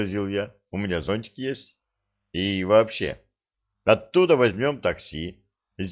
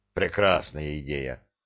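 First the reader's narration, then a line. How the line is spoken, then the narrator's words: Grumbled. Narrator (Russian): буркнул Кедр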